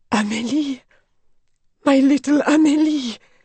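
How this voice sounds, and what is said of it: Hoarse whisper. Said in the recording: “hoarse whisper”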